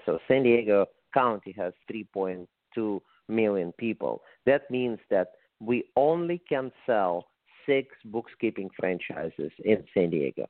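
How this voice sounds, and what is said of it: Russian accent. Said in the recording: “when I moved to the United States from Russia, as you can probably say from my accent”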